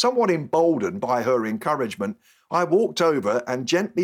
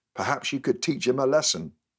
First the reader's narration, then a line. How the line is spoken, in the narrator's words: smiled and whispered